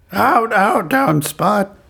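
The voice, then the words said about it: Poor Marge Simpson cartoon voice impression. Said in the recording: “That's the worst Marge.”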